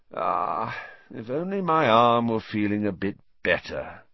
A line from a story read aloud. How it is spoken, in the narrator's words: he sighed